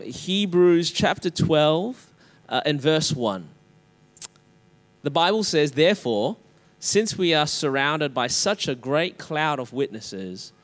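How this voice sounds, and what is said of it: Australian accent. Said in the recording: “my Australian accent.”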